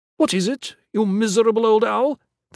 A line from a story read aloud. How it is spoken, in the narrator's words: cried